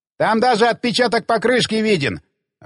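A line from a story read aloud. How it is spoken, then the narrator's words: Excited shout from behind. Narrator (Russian): азартно крикнул сзади Хэнк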